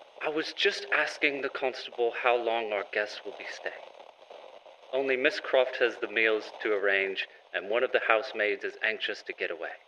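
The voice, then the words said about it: Poor put-on British accent. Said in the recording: “that was probably the worst British accent I've ever done”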